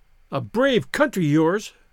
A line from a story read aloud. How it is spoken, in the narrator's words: she cried